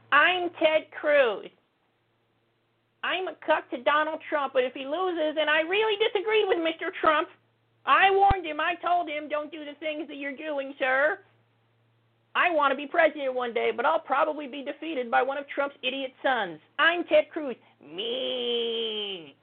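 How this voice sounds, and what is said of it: Ted Cruz impression. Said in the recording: “my Ted Cruz impression”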